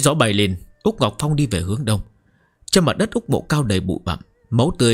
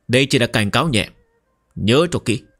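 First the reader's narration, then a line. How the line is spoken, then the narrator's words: Cold warning. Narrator (Vietnamese): Úc Ngọc Phong lạnh lùng nói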